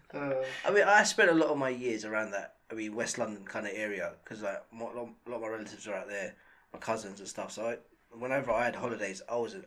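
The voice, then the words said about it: West London Southall twang. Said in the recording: “You sound like you come from Southall, bro, I tell you. You've got that Southall ... Twang. Yeah, you have got that twang, like, I mean, I'm going to break someone's heart, that sort of twang.”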